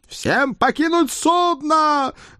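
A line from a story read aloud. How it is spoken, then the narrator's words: Thunderous roar. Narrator (Russian): громогласно проревел Эд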